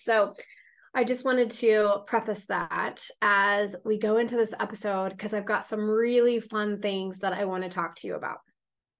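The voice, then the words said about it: Scratchy voice, under the weather. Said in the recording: “I am a little bit under the weather ... my voice is a little bit more scratchy than it usually is”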